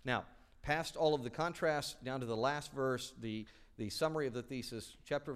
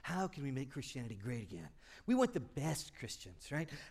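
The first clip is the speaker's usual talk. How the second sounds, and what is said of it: Imitates another person's voice. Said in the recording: “your President Trump imitation”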